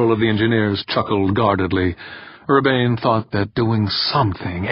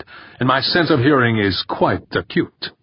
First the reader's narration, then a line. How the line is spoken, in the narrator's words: Urbain snapped